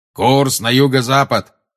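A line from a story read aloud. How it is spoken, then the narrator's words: Booming. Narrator (Russian): прогремел Грюм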